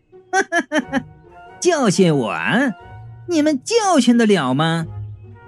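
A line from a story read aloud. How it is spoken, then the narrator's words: Domineering laughter. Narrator (Chinese): 强子老婆笑得很霸气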